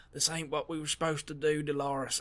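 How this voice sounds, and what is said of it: Poor James Marsden impression. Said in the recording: “that wasn't a very good James Marsden impersonation, I apologize, but that's the best we're gonna get”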